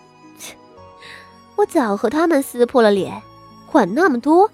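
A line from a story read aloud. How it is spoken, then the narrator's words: Scornful sneer. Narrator (Chinese): 傅宣仪嗤笑道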